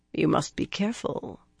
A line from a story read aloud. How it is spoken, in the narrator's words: Anath purred